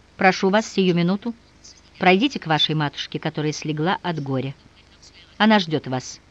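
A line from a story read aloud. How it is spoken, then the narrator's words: Dry. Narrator (Russian): сухо произнес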